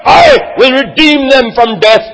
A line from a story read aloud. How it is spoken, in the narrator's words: God cried